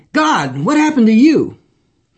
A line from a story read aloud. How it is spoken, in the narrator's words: he exclaimed